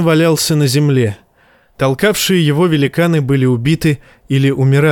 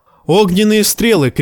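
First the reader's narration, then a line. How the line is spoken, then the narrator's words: Shout. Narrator (Russian): крикнул Джон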